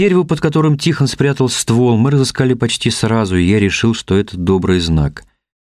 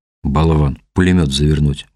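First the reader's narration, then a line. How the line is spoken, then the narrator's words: Gruff mutter. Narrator (Russian): буркнул он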